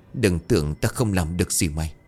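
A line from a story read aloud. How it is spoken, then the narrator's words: Defiant, inwardly trembling. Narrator (Vietnamese): Trong lòng dù đang run rẩy nhưng lão vẫn cứng miệng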